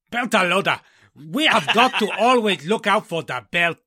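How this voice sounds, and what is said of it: Vaguely foreign sci-fi Belter accent. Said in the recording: “that famous OPA impression you've been working on ... somewhere vaguely foreign and beltish”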